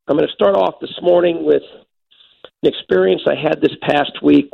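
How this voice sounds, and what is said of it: Raspy, hoarse voice. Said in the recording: “a little bit of a raspy throat ... a raspy throat”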